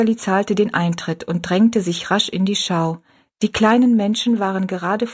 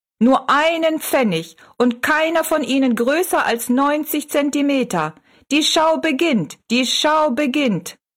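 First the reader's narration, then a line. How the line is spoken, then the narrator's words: Calling out. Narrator (German): rief er Rosalie zu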